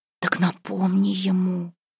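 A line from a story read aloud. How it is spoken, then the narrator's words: Whispering. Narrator (Russian): шептала ей Тёмушка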